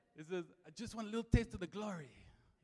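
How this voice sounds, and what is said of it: Imitated movie character accent. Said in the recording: “I'm going to embarrass myself now when I do this accent ... It sounded a little bit like him.”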